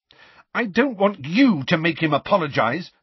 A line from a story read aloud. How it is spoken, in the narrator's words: Lily shouted